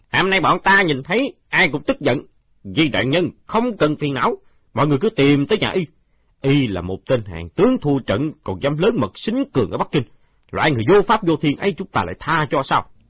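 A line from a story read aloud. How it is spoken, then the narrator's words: Guards growing angrier. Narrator (Vietnamese): Đám thị vệ càng nói càng tức giận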